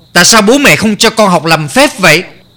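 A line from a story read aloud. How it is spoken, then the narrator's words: Angry scolding. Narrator (Vietnamese): Kha Gia Khoan tức giận mắng con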